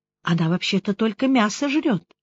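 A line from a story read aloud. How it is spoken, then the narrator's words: Confused mutter. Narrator (Russian): Рената растерянно пробормотала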